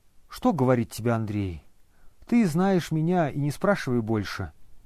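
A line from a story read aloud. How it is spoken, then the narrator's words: Sad. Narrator (Russian): печально сказал Обломов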